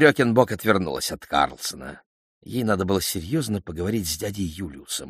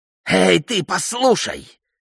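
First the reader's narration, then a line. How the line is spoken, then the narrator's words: Yelling. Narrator (Russian): орал он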